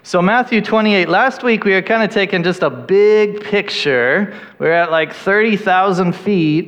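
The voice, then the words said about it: Noticeable, unusual-sounding accent. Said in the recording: “if my accent is hard for you to understand ... You sound different.”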